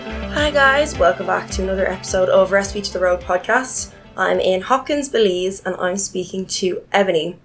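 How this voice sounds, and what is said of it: Sick-sounding voice from a cold. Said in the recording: “excuse my voice. I'm recovering from a cold that's just been dragging out, so don't mind my sick-sounding voice”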